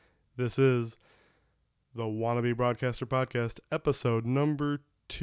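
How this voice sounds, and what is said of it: Usual voice. Nothing is said of it.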